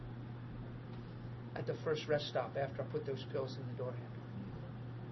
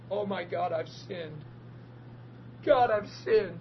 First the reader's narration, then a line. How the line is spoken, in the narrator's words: I start bawling and saying this